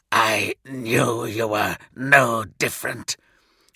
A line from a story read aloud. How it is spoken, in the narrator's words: Kurz hissed, still trying to laugh